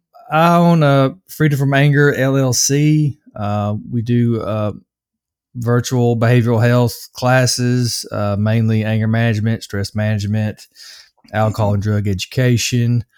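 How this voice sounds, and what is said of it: Slight Southern US accent. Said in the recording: “I'm from the U.S., from Nashville, so I do have a little bit of an accent”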